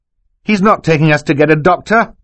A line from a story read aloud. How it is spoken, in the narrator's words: Klaus shouted